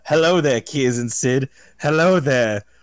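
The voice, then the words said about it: Put-on shifting accent. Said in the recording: “I'm going to keep changing my accent.”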